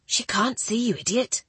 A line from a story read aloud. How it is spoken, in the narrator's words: one of the scullery maids whispered